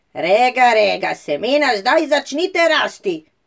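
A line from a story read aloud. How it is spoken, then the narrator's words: Loud shout. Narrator (Slovenian): Regica na ves glas zakričala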